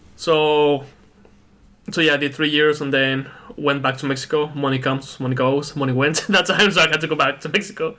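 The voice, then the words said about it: Very thick accent. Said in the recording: “you still got a very thick accent”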